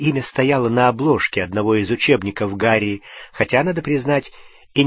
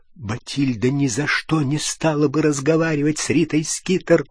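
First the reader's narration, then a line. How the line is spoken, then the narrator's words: Whispering. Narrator (Russian): прошептал Дош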